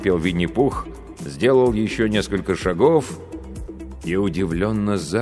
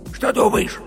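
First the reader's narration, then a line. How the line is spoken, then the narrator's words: Heated whisper, bear cub. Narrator (Russian): жарким шепотом спросил медвежонок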